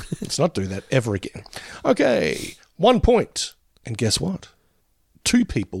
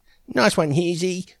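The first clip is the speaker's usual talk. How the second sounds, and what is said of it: Imitates another person's voice. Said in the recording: “that was my Hughesy imitation.”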